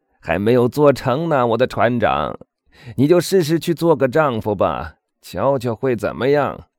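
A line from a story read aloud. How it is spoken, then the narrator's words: Laughing loudly. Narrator (Chinese): 卡德鲁斯大笑着说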